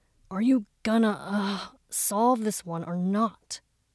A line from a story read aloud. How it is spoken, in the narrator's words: Mu Qing said, a broken sigh punctuating his question